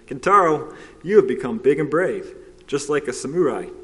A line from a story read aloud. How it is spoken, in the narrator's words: She laughed and said